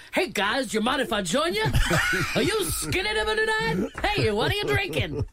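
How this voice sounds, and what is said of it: Comic crocodile character voice. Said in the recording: “Is that your impression of a crocodile?”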